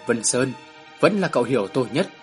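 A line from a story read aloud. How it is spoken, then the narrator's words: Soft, agreeing. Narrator (Vietnamese): Tôn Kim Nguyên khẽ gật đầu nói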